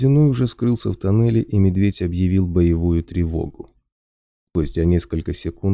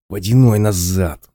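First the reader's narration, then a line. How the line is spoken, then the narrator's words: Hissing. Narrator (Russian): зашипел Кварц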